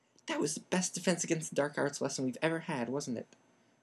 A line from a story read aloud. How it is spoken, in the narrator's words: said Ron excitedly